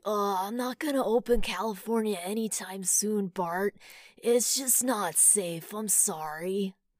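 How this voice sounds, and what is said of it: Cartoon character voice impression. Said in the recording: “my Milhouse impression, which you said sounds like Gavin Newsom ... Milhouse of the Simpsons, Bart Simpson's buddy”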